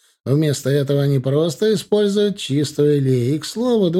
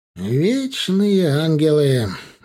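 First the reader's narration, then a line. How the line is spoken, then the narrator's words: Sighed. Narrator (Russian): вздохнул Аверский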